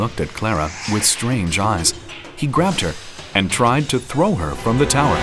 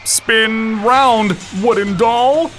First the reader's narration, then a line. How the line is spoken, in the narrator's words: He began screaming